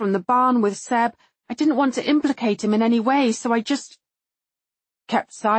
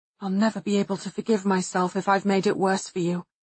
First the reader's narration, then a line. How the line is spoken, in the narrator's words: he mutters, half to himself